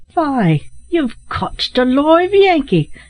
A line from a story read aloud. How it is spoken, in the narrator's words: exclaimed a voice there was no mistaking